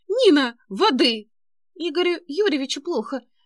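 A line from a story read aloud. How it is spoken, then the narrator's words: Shouting. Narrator (Russian): закричала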